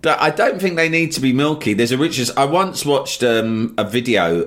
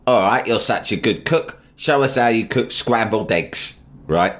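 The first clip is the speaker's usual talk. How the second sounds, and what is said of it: Imitates another person's voice. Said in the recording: “That's my Jonathan Ross impression. ... It's good.”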